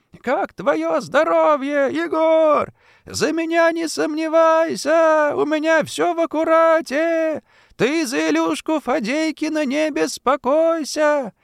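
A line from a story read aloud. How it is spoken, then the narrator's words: Happy loud shouting. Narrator (Russian): Антошин счастливо кричал на весь тюремный двор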